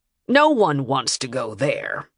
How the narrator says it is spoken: Harkin added dryly

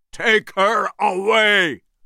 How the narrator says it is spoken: Engelhorn shouted

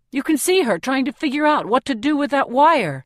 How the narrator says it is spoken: Peeta snaps back

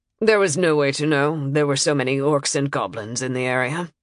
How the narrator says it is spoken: said flatly

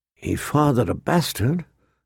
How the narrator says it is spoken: a small voice whispered inside him

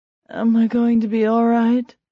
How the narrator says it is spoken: She asked anxiously

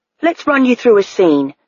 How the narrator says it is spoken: said Fred Epidermis

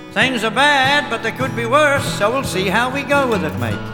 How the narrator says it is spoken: he would always cheerfully state

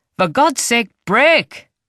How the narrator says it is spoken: He yells

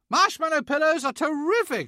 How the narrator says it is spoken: shouted Mr

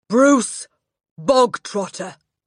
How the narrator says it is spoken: the Trunchbull barked suddenly

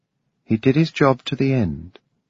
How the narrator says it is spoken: she said tenderly

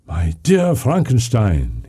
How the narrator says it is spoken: exclaimed

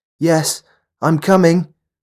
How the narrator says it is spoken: the girl shouted

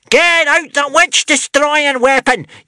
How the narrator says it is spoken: yelled the witch-smeller joyfully

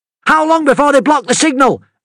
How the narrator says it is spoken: Amity shouted over the din

